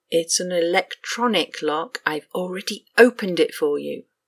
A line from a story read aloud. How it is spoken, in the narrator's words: Q hissed